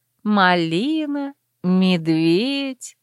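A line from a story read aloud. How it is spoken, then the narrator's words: Meaningful drawl. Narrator (Russian): многозначительно протянула я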